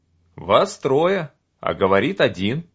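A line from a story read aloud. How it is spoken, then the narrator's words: Plain. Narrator (Russian): сказал я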